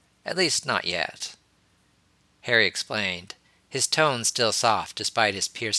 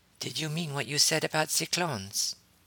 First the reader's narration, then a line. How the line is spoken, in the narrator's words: asked quietly